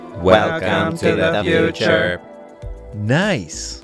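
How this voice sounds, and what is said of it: Robot voice like 1980s computer. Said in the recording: “a perfect fourth for a robot voice? ... It sounds a lot like a 1980s like computer”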